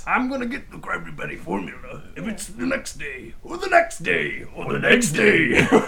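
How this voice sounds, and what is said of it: Cartoon villain Plankton character voice. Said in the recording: “That's a good impression.”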